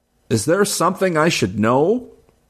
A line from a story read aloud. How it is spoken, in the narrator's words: Gilberto leaned closer to me and shouted above the music